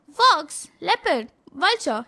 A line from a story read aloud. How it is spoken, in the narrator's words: he shouted